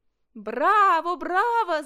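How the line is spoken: Group shouting. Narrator (Russian): закричали друзья

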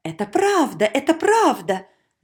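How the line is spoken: Crowd shouting. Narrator (Russian): закричали все

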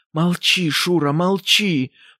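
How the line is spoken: Whisper through still lips. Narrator (Russian): прошептала Ксения Андреевна, и губы ее почти не двигались

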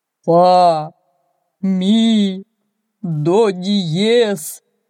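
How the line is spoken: Sobbing. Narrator (Russian): рыдало оно

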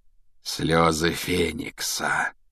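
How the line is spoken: Thoughtful drawl. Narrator (Russian): протянул Реддл в задумчивости

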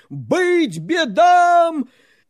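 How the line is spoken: Crowd shouting. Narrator (Russian): крестьяне и миряне, православные христиане, закричали

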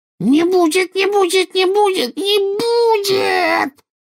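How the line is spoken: Rising to a shriek. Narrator (Russian): Голос Кикимера поднялся до визга

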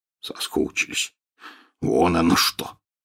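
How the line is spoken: Snorting grunt. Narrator (Russian): хмыкнул Хагрид

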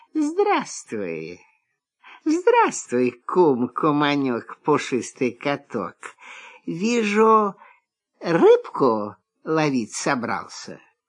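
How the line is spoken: Sweet honeyed voice. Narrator (Russian): лиса говорит медовым голоском

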